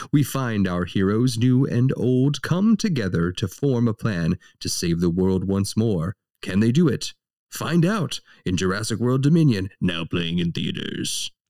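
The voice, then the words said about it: Movie trailer narrator voice. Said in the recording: “The return of the trailer voice”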